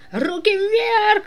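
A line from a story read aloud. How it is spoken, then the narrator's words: Theatrical shout. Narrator (Russian): закричала она театрально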